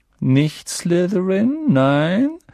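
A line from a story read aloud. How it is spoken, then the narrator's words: Squeaky voice. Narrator (German): sagte die piepsige Stimme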